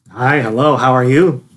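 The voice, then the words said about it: Deliberately deeper voice. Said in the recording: “She loved that deeper voice. Ready, let's try that. Say it in the deep voice.”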